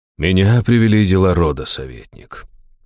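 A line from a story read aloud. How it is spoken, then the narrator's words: Low pleasant male voice. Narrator (Russian): низким приятным голосом ответил мужчина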